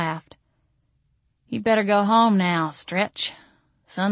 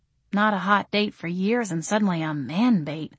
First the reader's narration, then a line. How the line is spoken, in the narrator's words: I muttered